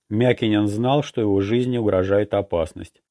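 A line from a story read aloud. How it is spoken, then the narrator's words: Calm. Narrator (Russian): спокойно сказал я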